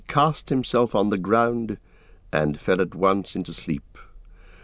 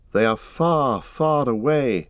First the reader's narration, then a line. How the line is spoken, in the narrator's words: he said sadly